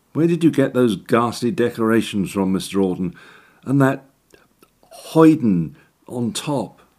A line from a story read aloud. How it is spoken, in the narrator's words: gave a throaty wheeze